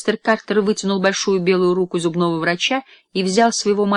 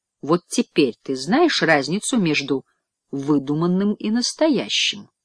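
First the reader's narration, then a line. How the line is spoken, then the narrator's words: Plain. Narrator (Russian): сказал мистер Картер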